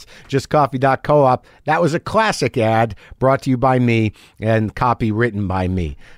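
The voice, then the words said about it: Slightly compromised voice from a cold. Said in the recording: “I am getting a cold ... my voice is a little compromised. Just a little tired, I think. Picked up a cold.”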